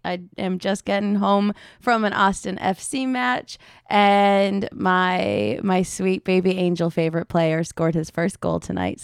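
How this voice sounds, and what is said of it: Hoarse voice. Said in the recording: “I am a little hoarse tonight.”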